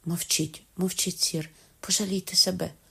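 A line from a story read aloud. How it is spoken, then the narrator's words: Whispered. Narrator (Ukrainian): прошепотіла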